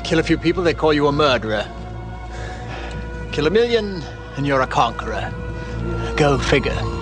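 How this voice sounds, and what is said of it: Awkward put-on British accent. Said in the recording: “His awkward attempt at a British accent”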